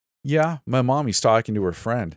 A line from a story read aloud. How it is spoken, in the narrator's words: I said